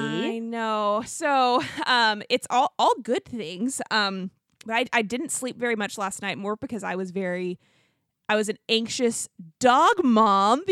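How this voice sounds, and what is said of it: Tired, sleepy voice. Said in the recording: “I sound a little tired. I am sleepy today.”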